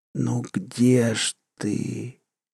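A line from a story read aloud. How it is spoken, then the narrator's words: Very quiet echo. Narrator (Russian): эхо своего голоса, хотя в этот раз он звучал совсем тихо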